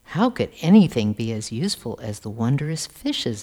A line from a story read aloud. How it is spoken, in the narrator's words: asked Hoshyar